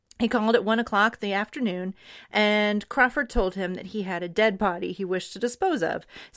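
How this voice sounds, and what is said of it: Transatlantic accent like Katharine Hepburn. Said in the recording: “you just go into like that accent that's like... The transatlantic accent... Catherine Hepburn”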